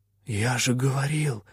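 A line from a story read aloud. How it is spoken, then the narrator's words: Whisper. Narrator (Russian): прошептал попрыгун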